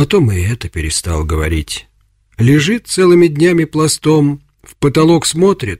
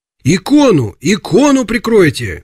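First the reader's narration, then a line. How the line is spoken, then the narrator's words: Shout. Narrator (Russian): крикнул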